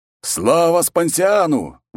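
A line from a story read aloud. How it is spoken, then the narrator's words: Joyful shout in unison. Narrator (Russian): в один голос закричали легионеры, радостно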